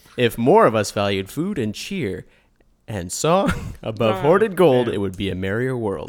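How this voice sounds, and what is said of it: Imitates another person's voice, Canadian-sounding. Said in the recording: “Tolkien accent? ... Tolkien impression? ... This version of Tolkien was from Canada. And so his accent is not what you'd expect.”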